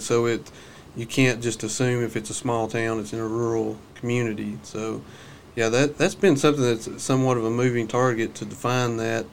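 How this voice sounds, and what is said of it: Rural regional accent. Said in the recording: “Usually when people hear my accent, they pretty much know I'm from a rural community.”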